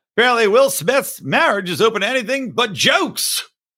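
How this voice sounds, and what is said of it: Imitates another person's voice, poorly. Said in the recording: “God, I can't do the accent now. ... It's the worst Norm MacDonald. I can actually do a Norm MacDonald. I can't do it now.”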